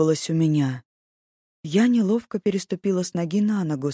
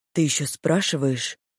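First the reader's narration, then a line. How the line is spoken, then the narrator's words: Spiteful, through teeth. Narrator (Russian): злобно процедил он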